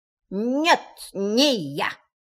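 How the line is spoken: In an unfamiliar voice. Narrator (Russian): сказал кролик совершенно не своим голосом

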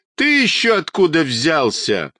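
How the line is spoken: Boy guffawing. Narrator (Russian): захохотал мальчишка

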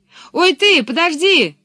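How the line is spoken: Calling after someone. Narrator (Russian): крикнул ей вслед Пеппи

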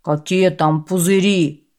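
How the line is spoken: Grumbling merchant. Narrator (Russian): проворчал торговец

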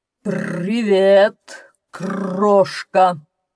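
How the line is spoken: Lion barking. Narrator (Russian): рявкнул лев

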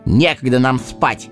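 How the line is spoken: Angry interruption. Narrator (Russian): сердито оборвал его Сэмми

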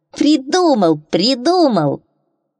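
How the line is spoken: Scary croaking voice. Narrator (Russian): проквакал страшным голосом

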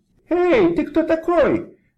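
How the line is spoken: Squeaky voice. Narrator (Russian): пропищал кошелек

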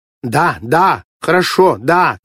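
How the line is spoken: Shouting into phone, repeating. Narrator (Russian): кричала в телефонную трубку и без конца повторяла

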